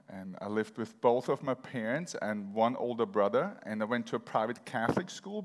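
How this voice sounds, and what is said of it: Austrian accent in English. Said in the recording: “raised in Vienna, Austria, so that's where kind of like the weird accent comes from”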